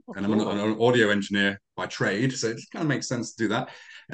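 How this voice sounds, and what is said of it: English accent. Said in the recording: “I've got the English accent”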